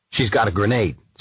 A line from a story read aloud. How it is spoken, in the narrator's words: said the chief